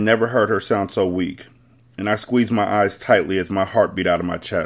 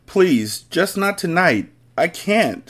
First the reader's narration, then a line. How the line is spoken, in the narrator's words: she cried